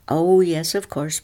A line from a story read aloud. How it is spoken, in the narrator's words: people said